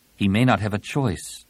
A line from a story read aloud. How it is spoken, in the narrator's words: Tenelka said grimly